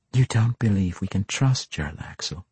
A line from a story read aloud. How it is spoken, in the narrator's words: Dahlia asked quietly